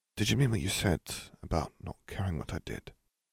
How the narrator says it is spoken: He murmured

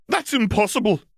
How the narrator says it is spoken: McGonagall shouted

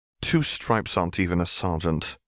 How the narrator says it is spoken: Harry muttered

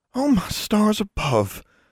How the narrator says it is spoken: Innocence gasped

